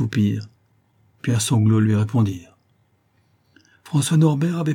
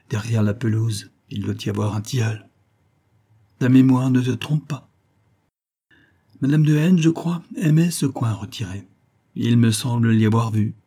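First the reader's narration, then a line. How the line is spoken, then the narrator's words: Slightly trembling voice. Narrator (French): prononça-t-il d'une voix qui tremblait un peu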